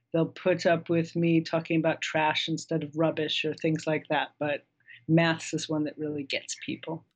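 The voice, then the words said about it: American English accent. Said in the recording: “accent ... she hails from the land of math ... from the United States living in England”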